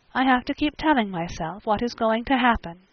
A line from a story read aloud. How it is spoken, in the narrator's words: she said softly